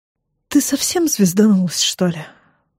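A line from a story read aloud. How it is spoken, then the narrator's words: Weary question. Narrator (Russian): устало спрашивает он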